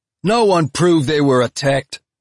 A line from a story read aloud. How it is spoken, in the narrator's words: someone shouted from the crowd